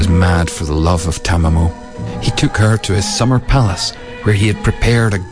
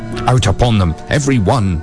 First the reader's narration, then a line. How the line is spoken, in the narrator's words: cried the emperor